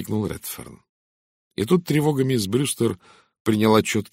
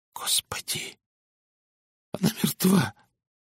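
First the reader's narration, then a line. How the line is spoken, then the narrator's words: Rustling trembling whisper. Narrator (Russian): прошелестел дрогнувшим голосом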